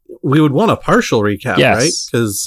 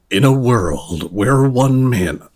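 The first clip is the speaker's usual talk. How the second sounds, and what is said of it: Deep movie trailer announcer voice. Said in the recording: “would you like to do recap in announcer ... voice? ... Or rather, recap in a world voice.”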